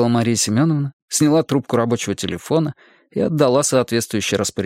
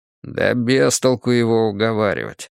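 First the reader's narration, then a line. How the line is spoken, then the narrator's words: Grumbling. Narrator (Russian): проворчал Николай Степанович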